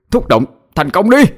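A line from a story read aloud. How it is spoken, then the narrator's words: Straining shout. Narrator (Vietnamese): Cậu cố sức mà hét lên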